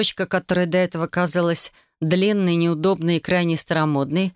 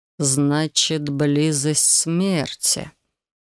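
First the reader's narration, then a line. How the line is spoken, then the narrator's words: Slow. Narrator (Russian): медленно повторил мужчина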